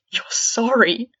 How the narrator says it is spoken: Fred let out a dark laugh

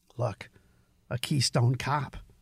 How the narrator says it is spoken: said Robert under his breath

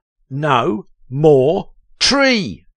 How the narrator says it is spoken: Chester shouted

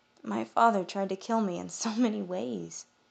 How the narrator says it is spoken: I whispered

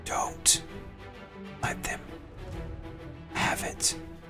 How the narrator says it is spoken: whispers in your ear, he kind of leans in a little bit and whispers

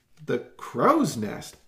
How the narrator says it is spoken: Bob exclaimed

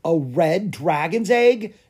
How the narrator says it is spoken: exclaimed Clara

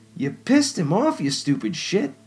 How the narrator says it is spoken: Dylan snapped as he struggled to slide out from under Mincy

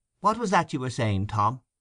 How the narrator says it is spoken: asked Mr

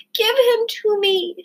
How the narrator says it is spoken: screamed Abilene

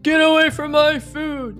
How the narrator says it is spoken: yelled Pete in as gruff a voice as he could

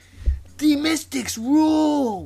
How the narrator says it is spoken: one of them yelled from the other side of the school fence

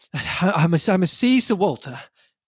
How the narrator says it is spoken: I panted

